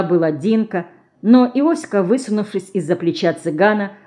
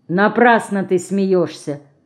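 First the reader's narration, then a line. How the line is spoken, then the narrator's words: Cold. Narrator (Russian): холодно сказала Динка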